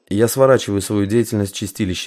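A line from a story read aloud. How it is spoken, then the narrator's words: Even tone. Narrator (Russian): ровным тоном сказал Тарас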